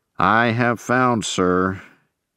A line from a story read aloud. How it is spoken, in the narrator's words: answered stiffly